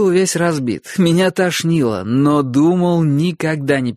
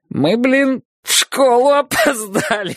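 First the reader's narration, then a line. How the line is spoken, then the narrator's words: Choking with laughter. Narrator (Russian): захлебывались от хохота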